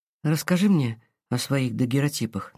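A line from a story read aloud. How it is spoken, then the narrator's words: Breathed out finally. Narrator (Russian): наконец выдохнула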